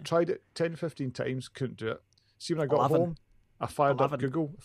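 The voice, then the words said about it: Glaswegian Scottish accent. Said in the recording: “I know part of that is the Glaswegian accent.”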